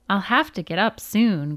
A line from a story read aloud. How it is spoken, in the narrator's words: Grandma sighed